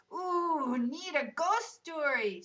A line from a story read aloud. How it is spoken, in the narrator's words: shouted Riaz